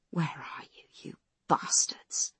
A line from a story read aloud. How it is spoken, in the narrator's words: Foss whispers